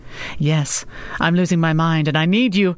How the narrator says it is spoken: she laughed, comforted by the sound of his voice

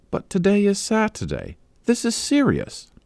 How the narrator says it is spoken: gasped Amanda

